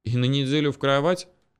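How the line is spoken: Snorting grunt. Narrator (Russian): хмыкнул Эдик

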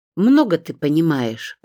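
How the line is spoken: Grumbling. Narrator (Russian): проворчала Римма Марковна

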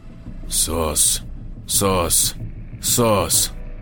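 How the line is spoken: Slow, unhurried repetition. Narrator (Russian): Повторял он снова и снова, медленно, неторопливо

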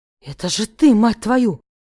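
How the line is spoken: Breathed out. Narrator (Russian): выдохнул он мне в рот

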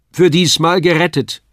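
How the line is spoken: Call. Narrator (German): rief mein Vater

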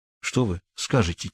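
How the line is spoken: Quiet whisper. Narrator (Russian): тихо прошептал я Курлевену

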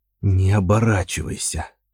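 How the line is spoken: Whispered. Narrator (Russian): Натан прошептал

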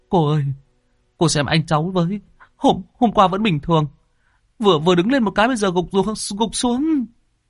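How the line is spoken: Young man whimpering. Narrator (Vietnamese): Người thanh niên mếu máo

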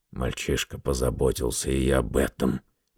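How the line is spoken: Gruff grumble. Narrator (Russian): буркнул Гаррет

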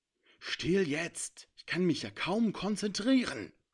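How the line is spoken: Hissing. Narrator (German): fauchte Avia

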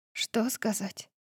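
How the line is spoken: Whisper. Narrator (Russian): прошептала я

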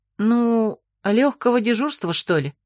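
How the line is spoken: Uncertain wish. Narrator (Russian): неуверенно пожелала

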